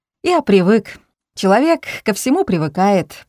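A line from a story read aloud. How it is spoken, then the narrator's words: Laughing. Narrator (Russian): продолжал смеяться Алик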